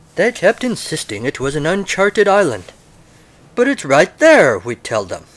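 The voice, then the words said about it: Put-on British colonial accent. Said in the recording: “I will do my best British colonial accent.”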